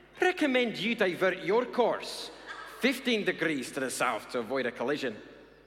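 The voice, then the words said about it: Put-on Scottish accent. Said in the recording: “between some Scots and an American Navy captain ... I'm going to try and do the accents”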